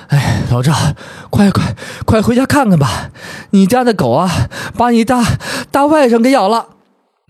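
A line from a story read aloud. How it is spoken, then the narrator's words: Breathless woman after running. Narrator (Chinese): 邻居家的大婶儿是个胖子，跑得气喘吁吁 喘了几口大气，道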